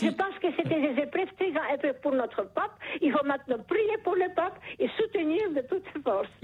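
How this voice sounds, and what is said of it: Charming foreign-accented French. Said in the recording (French): “Vous avez un charmant accent ... ce joli accent”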